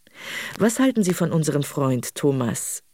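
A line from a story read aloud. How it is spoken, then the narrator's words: Plain. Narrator (German): fragte Jules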